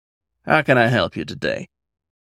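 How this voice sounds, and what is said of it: Light Southern accent character voice. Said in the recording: “a light southern accent popping out at him”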